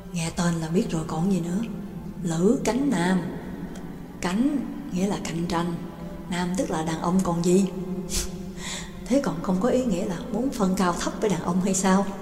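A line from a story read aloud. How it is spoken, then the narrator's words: Conspiratorial, hushed voices. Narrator (Vietnamese): Hai người càng nói càng nhỏ giọng, giống như hai kẻ làm chuyện xấu đang ngấm ngầm bàn luận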